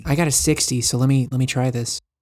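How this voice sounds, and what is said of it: Speaking in a character voice. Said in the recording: “I don't know why I'm saying all this in my character voice”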